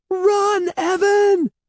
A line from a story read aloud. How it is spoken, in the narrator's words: Andy screamed